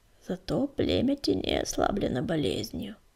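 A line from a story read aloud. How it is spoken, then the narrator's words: Muttered. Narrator (Russian): пробормотал Буран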